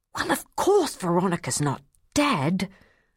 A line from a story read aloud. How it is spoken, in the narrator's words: snapped